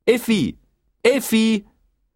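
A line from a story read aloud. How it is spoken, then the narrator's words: Calling out. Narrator (German): rief Bertha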